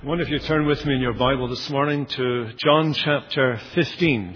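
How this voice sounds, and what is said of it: Scottish accent, slight Irish, Canadian tinge. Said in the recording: “I'm Scottish. This is the accent ... It's been modified over the years with a little bit of Irish, a little bit of Canadian”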